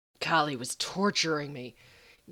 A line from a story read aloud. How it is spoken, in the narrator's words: Gabriel growled against Sam's lips